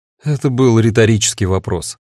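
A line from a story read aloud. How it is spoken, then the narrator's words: Sighing. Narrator (Russian): вздохнул я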